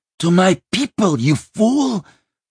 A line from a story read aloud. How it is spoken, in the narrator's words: Vosheva cried